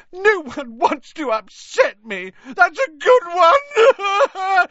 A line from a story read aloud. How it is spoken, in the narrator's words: howled Myrtle